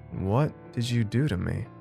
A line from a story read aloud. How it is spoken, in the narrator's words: slurred